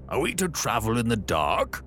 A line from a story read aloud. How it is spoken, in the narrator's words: cried the passengers angrily